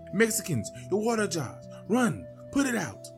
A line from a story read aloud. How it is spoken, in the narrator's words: People were screaming